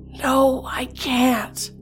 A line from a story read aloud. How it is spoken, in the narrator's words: rasped